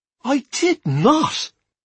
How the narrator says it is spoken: I cried, horrified

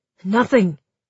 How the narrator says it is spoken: said sharply

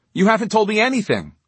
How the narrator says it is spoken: Charlie exclaimed angrily

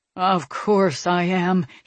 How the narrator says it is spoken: he grumbled

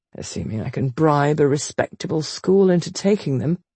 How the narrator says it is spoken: he added wearily

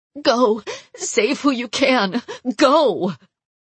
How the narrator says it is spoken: She was crying and didn't even look up as she sobbed

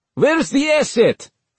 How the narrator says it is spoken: someone shouted

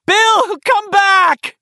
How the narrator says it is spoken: she screamed despairingly

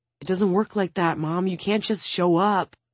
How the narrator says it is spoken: Zacharias mumbled

